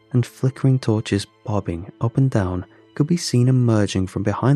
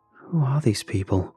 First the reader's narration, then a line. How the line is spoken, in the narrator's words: I whispered to myself so quietly I could barely hear it